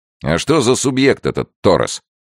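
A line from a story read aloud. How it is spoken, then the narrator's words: Sharp question. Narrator (Russian): резко спросил Генри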